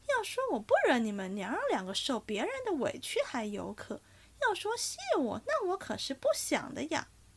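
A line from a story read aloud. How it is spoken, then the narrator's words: Laughing old woman. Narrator (Chinese): 马道婆便笑道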